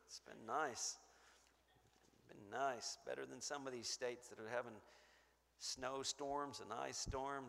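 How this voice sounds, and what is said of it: Hoarse, fading voice. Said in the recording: “My voice is going a little bit.”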